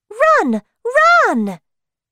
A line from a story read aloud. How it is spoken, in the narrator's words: shouted Little Mai